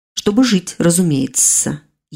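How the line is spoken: Snide, drawn-out demonic hiss. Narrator (Russian): ехидно зашипел демон, растягивая слова

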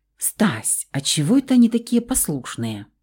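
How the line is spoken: Fearful hushed question. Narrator (Russian): Спросила вполголоса, боясь быть услышанной кем-нибудь из мужиков

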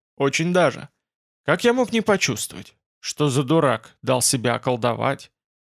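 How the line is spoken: Even voice. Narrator (Russian): Он сказал ровным голосом

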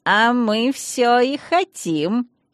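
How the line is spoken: Elf guard's sly giggle. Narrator (Russian): хитренько хихикнул эльфийский охранник

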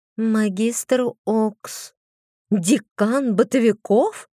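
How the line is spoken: Sighing near whisper. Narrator (Russian): Айлира вздохнула, почти прошептала

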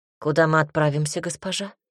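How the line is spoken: Calm question. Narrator (Russian): спокойно спросил кучер

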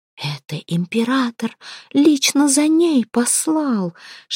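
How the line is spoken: Excited whisper. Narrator (Russian): шептала Феофана, в предвкушении чего-то интересного

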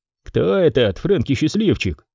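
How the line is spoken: Grumbling. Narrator (Russian): проворчал Пэна

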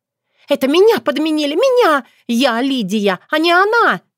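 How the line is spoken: Shrieking. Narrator (Russian): визжала Лидия

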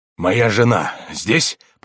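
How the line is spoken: Muttering. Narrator (Russian): пробормотал он

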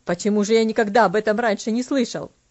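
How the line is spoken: Slightly irritated question. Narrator (Russian): Немного раздраженно спросил он

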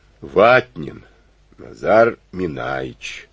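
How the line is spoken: Deep booming voice. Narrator (Russian): прогудела эта гора, словно из глубокой шахты

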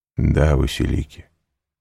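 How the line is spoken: Calm reply. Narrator (Russian): спокойно ответил Селим

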